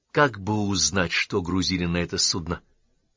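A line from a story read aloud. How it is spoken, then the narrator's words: Sighing. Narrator (Russian): вздохнул Саймон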